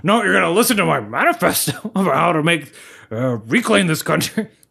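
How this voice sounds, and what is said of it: Alex Jones impression. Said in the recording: “Alex Jones, how do you talk?”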